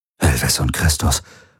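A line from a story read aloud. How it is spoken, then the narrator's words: Murmured. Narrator (German): murmelte Rick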